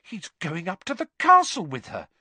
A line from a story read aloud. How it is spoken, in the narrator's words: said Hermione indignantly